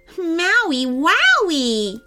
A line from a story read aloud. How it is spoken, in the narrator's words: Jessica exclaimed